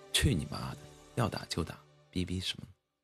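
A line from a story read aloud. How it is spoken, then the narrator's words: Faint calm smile. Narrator (Chinese): 公主淡淡一笑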